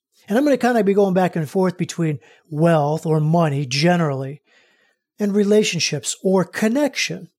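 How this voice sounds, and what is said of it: Hoarse, throaty voice. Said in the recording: “I have a frog in my throat ... if you hear me cough a little bit”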